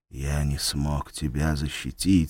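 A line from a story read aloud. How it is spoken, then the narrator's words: Barely audible. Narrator (Russian): сказал едва слышно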